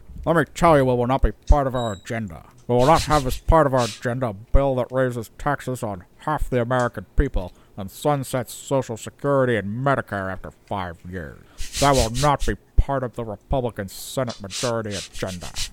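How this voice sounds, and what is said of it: Imitates another person's voice. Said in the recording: “Let me do my Mitch McConnell voice ... I'm impressed by that impression.”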